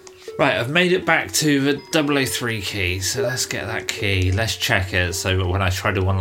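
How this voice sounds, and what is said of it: Usual voice. Nothing is said of it.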